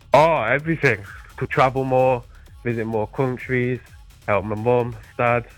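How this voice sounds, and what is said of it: British accent. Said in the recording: “You got yourself a little bit of an accent, do you? You're from the old country. ... I'm from the UK. ... Mind the gap. I hope I can understand your answers”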